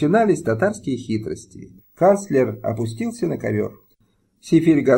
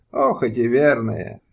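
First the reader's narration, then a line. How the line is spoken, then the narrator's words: Sigh. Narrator (Russian): вздохнул Сефиргазы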